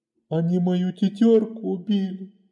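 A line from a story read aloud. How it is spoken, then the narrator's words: Sobbing. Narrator (Russian): всхлипывал он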